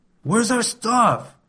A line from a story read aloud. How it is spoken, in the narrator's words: yelled, my temper beginning to swell